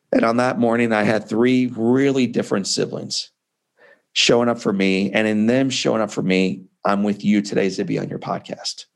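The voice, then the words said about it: Emotional, choked-up voice. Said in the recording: “that's why I get emotional”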